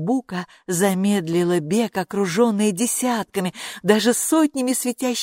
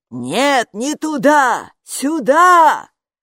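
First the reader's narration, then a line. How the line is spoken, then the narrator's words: Shouting. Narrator (Russian): закричала привратница, но напрасно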